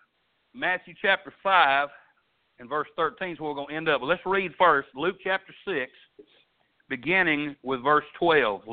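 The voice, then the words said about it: Thick Arkansas country accent. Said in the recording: “my country accent ... this thick Arkansas accent”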